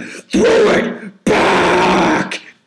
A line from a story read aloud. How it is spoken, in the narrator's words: he's just screaming